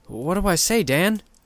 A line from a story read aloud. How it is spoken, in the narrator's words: exclaimed